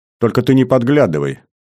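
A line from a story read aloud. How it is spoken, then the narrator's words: Laughing. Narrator (Russian): смеясь закончила Беляна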